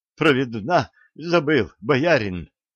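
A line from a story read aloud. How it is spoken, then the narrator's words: Breathless, strained. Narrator (Russian): С трудом выдохнула прибрана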